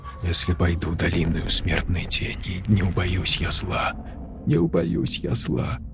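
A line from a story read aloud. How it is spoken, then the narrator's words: Sobbing soundless whisper. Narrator (Russian): шептала, тихо всхлипывая, Тори одними губами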